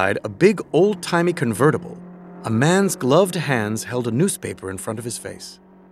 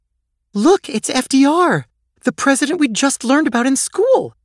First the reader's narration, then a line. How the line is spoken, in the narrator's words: exclaimed Gigi